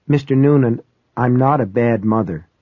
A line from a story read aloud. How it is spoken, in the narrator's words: she said